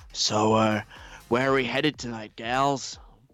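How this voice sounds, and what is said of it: Imitates another person's voice. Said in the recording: “let's do my Pink voice.”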